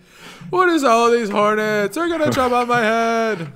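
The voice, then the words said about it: Jerry Seinfeld impression. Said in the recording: “Jerry Seinfeld ... that impression”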